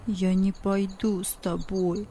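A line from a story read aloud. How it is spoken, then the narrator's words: Mumbling. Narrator (Russian): пробормотал он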